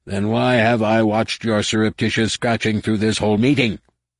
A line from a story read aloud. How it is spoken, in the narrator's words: roared at the top of his lungs